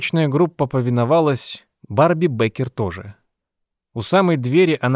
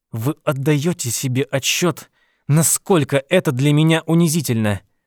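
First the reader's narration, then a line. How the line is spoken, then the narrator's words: Through gritted teeth. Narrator (Russian): процедила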